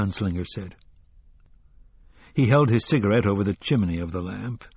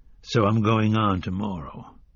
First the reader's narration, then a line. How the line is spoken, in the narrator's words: the gunslinger said